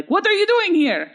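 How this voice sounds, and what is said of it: Abrupt put-on Russian accent. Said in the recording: “Was that your Russian accent? ... Yeah. ... abruptly”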